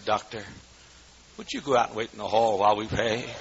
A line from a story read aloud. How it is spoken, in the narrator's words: She smiled sweetly and said